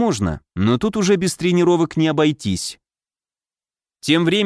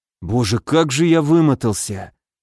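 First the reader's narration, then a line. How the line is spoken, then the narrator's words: Heavy sigh, then speech. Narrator (Russian): тяжело вздохнув, произнес он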